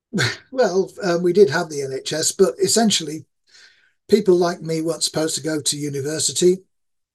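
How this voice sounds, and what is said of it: East Yorkshire English accent. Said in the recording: “My accent is that of East Yorkshire”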